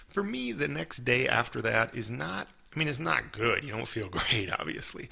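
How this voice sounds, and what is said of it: Slightly groggy, hoarse voice. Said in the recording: “I kind of wake up with like a groggy throat. I have a little bit of that today. ... you can hear it a little bit in my voice, that kind of grogginess”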